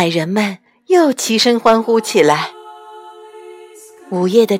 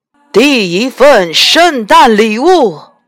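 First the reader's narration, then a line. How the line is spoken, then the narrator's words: Loud. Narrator (Chinese): 大声说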